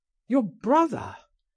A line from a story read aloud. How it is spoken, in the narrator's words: I cried